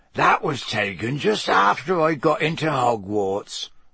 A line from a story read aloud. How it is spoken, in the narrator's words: Hagrid croaked